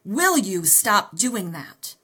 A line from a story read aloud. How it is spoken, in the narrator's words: I thundered at him